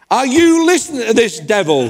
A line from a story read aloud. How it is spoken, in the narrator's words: he shouted, he said